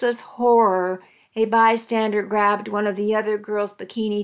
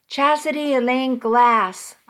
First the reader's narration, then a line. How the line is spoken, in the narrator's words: I roared